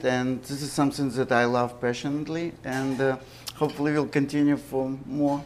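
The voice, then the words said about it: Ukrainian accent. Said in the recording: “taking into consideration my accent, I wasn't born here ... I came from Ukraine”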